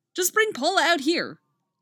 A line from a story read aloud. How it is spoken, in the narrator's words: exclaims